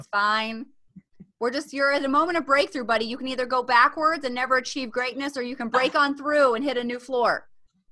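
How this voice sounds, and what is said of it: Mock motivational trainer voice. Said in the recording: “public speaking mom voice ... put on my real estate trainer thing. It's my real estate trainer hat”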